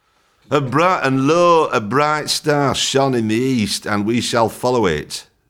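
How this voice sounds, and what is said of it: Yorkshire accent. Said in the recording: “You can't do the nativity play in a Yorkshire accent.”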